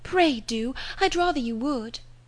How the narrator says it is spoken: cried Harriet

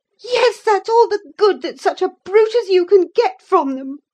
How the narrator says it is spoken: cried Catherine, sucking her damaged lip, with indignant eyes

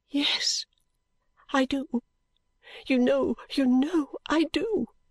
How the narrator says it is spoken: sobbed out

